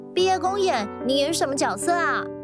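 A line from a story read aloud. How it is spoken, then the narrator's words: Shout from outside window. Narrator (Chinese): 有人在教室窗外喊道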